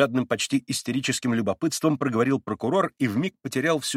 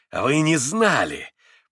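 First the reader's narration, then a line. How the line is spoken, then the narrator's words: Mocking, spiteful. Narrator (Russian): подмигнул Митя, насмешливо и злобно улыбнувшись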